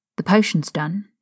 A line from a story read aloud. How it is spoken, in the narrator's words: said quietly